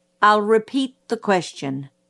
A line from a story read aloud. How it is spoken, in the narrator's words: said Atticus